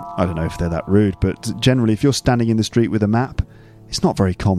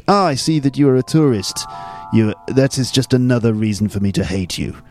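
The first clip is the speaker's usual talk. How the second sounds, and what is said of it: Put-on French accent. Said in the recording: “I don't know what happened to the accent there at the end.”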